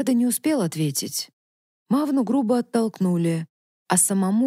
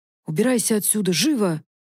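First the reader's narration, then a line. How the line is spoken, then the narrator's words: Growl. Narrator (Russian): прорычал смородник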